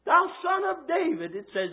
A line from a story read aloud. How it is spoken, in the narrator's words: he cried out the more